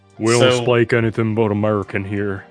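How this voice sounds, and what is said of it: Hank Hill cartoon character voice. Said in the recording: “that's a good Hank Hill impression”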